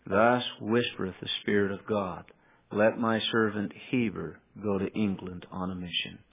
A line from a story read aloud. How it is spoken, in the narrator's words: Kimball, and quietly he whispers to him, and he says